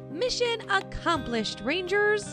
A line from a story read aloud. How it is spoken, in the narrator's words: Rosie said